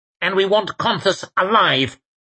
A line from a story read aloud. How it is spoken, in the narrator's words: barked Lawson